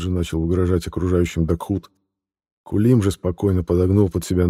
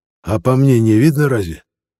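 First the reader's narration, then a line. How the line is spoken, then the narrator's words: Snapping retort. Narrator (Russian): огрызнулся в ответ Кулим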